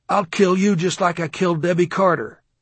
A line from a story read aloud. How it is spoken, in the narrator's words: he yelled into the phone at his mother and said